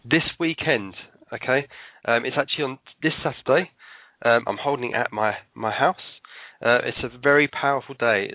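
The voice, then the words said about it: Out of breath while talking. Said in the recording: “I'm out of breath, I'm walking around too much.”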